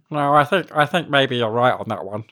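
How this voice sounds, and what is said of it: Put-on nerdy character voice. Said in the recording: “You're really, really pulling out the nerd voice for this podcast. ... It's easier to speak in nerd voice than my own voice.”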